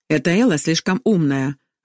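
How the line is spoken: Irritated remark. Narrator (Russian): раздраженно бросила Магда

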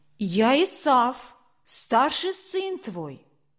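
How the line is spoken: Plain. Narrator (Russian): ему говорит

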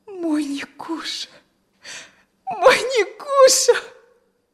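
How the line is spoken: Sobbing, crying. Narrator (Russian): всхлипнула и заплакала

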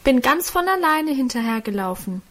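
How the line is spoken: Called out. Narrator (German): rief da Guste

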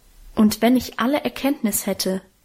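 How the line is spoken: Plain, apostle. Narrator (German): sagt der Apostel

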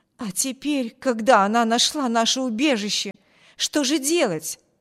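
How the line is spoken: Exclaiming woman. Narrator (Russian): воскликнула женщина

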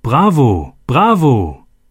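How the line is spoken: Called out. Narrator (German): jemand rief

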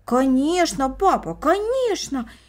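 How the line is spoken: Siblings exclaiming in unison. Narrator (Russian): воскликнули брат и сестра в один голос

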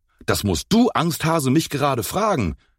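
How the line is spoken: Angry shout. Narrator (German): rief Enzo wütend

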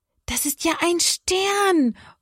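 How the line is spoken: Excited call. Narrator (German): ruft Johanna

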